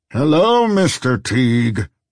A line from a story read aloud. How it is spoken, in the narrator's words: boomed a voice behind him